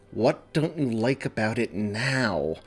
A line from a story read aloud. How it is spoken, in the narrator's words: weary asked through gritted teeth